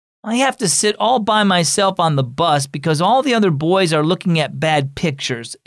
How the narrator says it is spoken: exclaimed Ryan

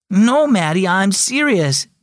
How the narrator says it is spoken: Devin exclaimed

